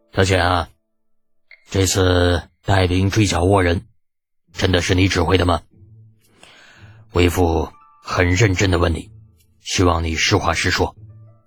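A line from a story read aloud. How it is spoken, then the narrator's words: Serious deep voice. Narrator (Chinese): 李靖面色一正，沉声问道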